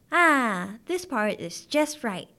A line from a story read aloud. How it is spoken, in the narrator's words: she said happily